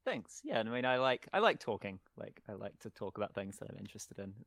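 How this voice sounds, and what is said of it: Distinctive non-American English accent. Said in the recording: “I love your accent. ... It's obviously normal for you ... it's a weird accent. We tend to pronounce a lot of things the same.”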